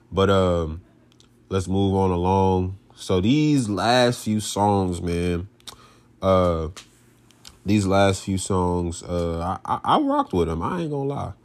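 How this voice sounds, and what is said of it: Stuffed-up congested voice. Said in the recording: “getting over being a little stuffed up from this weather change. Allergies been killing me ... y'all can hear it in my voice”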